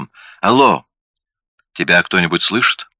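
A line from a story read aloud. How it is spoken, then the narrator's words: Cheerful tone. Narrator (Russian): Одетта произнесла бодрым тоном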